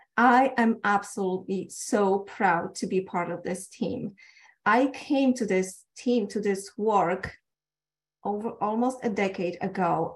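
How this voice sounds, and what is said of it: Polish accent. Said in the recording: “I'm Polish. That's where the accents come from. And then when I'm nervous, it gets a little bit heavier.”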